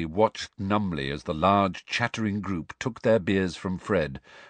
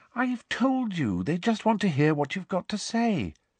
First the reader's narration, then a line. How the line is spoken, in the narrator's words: said Hermione soothingly